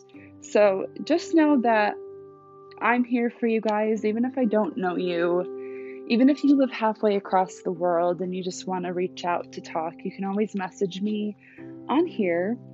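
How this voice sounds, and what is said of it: Tired, worn-out voice. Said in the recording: “My voice sounds really tired. That's because I've just been getting over like a chest cold.”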